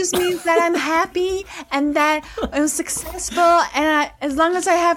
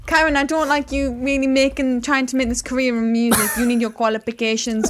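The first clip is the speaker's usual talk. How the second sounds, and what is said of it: Put-on Filipino accent. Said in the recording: “And now in the Filipino voice, in the accent. ... Yeah, now with a Filipino accent.”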